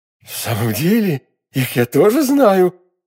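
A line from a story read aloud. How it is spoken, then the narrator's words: Frightened exclamation. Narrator (Russian): воскликнула, чувствуя, что вся холодеет от страха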